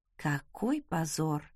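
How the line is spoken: Embarrassed fearful mutter. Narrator (Russian): пробормотала я, боясь повернуться лицом к уважаемым магистрам

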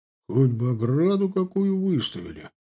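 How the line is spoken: Grumbled. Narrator (Russian): проворчал Никита

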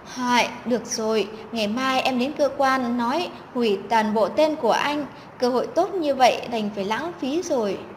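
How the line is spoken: Sighing. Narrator (Vietnamese): Chân Ngọc thở dài

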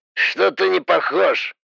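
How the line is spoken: Skeptical snort. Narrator (Russian): хмыкнул голос

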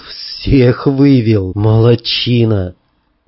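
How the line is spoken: Hoarse. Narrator (Russian): я хрипло сказал

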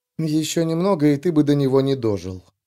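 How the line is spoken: Quiet. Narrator (Russian): тихо проговорила

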